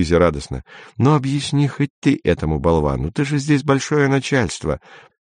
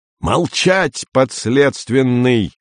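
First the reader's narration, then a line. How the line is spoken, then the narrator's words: Yelled. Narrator (Russian): заорал Андрей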